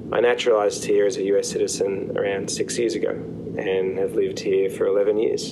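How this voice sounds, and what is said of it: Australian accent. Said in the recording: “I don't sound American, which is because I was born in Australia”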